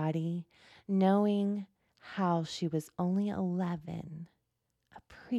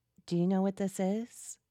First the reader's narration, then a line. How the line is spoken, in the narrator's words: I asked her